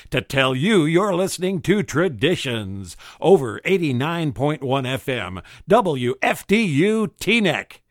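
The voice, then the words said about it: Announcer-style radio voice. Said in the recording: “using my very best radio voice”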